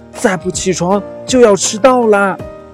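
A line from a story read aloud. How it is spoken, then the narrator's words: Anxious urgent call. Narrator (Chinese): 长耳兔着急了，他怕小马猴第一天上学就迟到，忙喊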